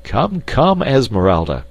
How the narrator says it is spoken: cried Clayton

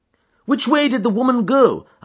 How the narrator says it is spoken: I cried

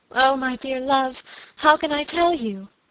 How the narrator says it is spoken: cried my lady

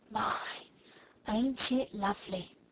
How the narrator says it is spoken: whispered Becky

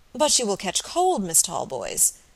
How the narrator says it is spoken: remonstrated Robert, looking at her anxiously

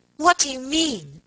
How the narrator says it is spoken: she cried suddenly

